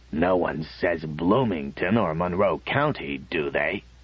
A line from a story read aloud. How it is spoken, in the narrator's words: Matthew twisted his old face alarmingly and rasped out